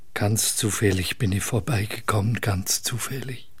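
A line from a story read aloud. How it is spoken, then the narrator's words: Quiet repeated insistence. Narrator (German): Der Hausierer beteuerte leise immer wieder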